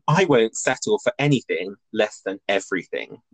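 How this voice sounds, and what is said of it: Imitates another person's voice. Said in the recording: “I would say I do a weird accent, but I think because we're both British, we probably will end up sounding like Dorit without realising anyway.”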